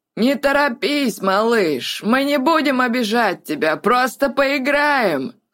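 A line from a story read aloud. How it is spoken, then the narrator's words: Hoarse mocking shout. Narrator (Russian): Хриплым насмешливым голосом крикнул Гэт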